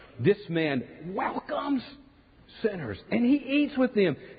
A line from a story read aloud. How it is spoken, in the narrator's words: the Pharisees and teachers of the law muttered